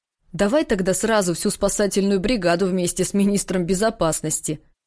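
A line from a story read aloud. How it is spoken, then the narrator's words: Funny mocking grumble. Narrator (Russian): Дима ерничал, но это ворчание звучало так забавно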